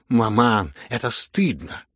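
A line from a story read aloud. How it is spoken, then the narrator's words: Loud cry. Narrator (Russian): громко вскричала Аглая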